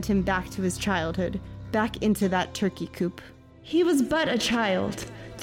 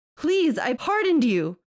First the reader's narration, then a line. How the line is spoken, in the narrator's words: he screamed